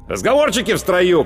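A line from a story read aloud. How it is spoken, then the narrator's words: Sergeant's shout. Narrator (Russian): крикнул сержант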